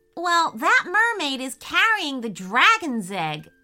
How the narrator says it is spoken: exclaimed Logan with delight

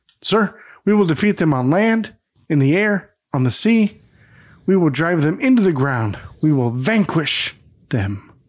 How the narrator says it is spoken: he snaps back to attention and states

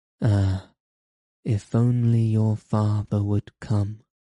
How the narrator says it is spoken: she sighed

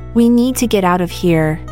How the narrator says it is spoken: said, her voice steady

